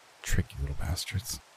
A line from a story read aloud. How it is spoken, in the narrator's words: I muttered